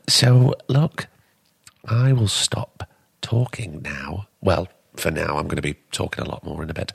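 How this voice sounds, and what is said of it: Hoarse, worn-out voice. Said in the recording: “I've been talking so much, my voice is gone. Where's that echinacea throat spray”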